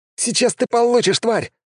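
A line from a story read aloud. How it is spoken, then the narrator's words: Exclaimed. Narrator (Russian): воскликнул он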